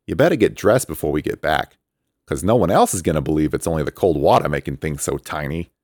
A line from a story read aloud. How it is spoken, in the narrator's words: he teased